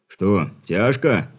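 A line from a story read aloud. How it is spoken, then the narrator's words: Chuckle. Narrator (Russian): хохотнул в ответ Лапин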